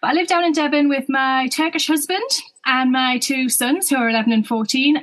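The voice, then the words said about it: Northeast English accent. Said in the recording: “A lot of people will be able to tell that already from my accent. ... So I'm from the northeast of England originally, near Newcastle.”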